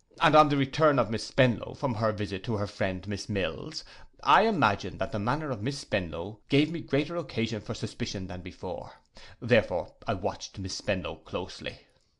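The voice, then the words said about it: Disdainful voice. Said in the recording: “in a disdainful voice,”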